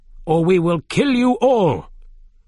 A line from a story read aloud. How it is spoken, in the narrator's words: one of the men shouted